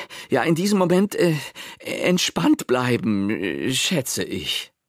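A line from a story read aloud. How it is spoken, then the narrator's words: Breathless reply. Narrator (German): Pepe … erwiderte atemlos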